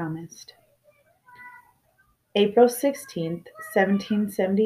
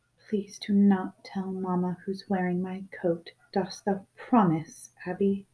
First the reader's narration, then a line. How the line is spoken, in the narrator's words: Finally, she whispered